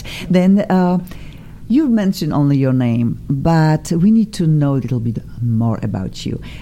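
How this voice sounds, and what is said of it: Speaks English with an accent. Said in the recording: “I have an accent too. I'm so proud of this accent”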